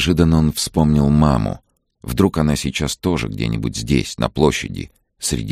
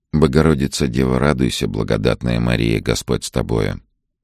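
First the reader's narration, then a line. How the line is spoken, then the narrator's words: Quiet repetition. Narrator (Russian): Вадим негромко повторял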